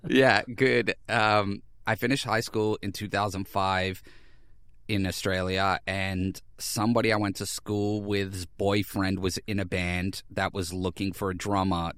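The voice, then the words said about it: Non-local accent, somewhat Boston-like. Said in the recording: “as the audience can tell by your accent, you're not originally from there ... My accent is very strange ... I'm told frequently that I sound like I'm from Boston”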